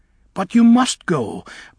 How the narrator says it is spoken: Bach cried

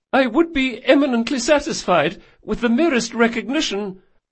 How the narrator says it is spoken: added, his voice was high and nervous

